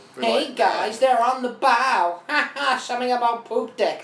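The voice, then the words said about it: Squeaky, high-pitched bad celebrity impression. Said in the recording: “that Sandler impression ... That was Sandler? I thought that was like Pee Wee Herman after inhaling helium ... my joke is that it was bad”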